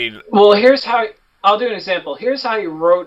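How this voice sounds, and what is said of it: Usual voice. Nothing is said of it.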